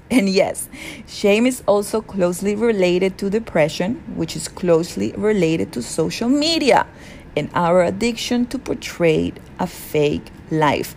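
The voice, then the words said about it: Very heavy accent. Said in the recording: “my accent is very heavy”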